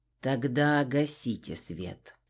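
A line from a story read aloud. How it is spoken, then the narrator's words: Quiet command. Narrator (Russian): негромко приказал адмирал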